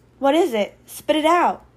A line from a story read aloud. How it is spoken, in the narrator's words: Alie said nervously